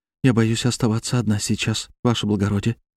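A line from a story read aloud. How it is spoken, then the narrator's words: Quiet female voice. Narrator (Russian): тихо проговорила она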